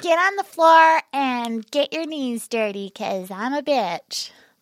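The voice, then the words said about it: Sorority girl baby voice. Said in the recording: “my impression of a sorority girl ... Little baby voice.”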